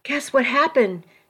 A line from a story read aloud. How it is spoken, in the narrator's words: She said in a breathless voice